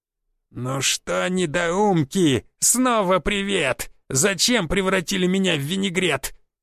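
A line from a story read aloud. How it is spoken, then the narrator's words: Vicious rasp through burned lips. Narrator (Russian): Гоб злобно прохрипел обожженными губами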